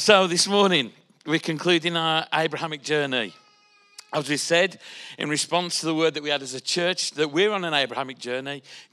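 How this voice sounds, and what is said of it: Congested, stuffy-nosed voice. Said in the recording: “I've been a bit bunged up for the last couple of weeks or so, so uh, let's just hope my voice gets through this.”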